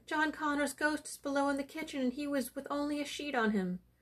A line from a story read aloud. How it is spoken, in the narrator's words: cried the housekeeper